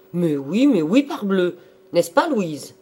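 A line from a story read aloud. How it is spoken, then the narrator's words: Exclaimed. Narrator (French): Roland s'écria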